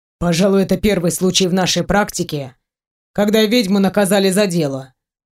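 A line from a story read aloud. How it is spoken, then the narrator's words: Snorted. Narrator (Russian): хмыкнул Войтых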